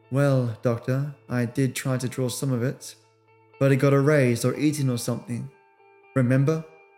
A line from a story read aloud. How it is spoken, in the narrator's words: said this in a flat tone, devoid of frustration or sarcasm